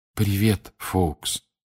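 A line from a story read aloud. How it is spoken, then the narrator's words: Quiet whisper. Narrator (Russian): тихо прошептал Гарри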